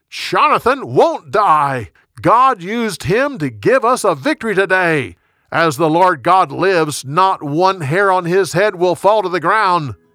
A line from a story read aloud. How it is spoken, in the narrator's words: The people shouted